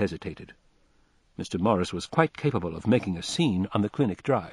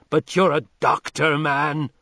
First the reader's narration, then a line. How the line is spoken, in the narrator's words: cried Morris furiously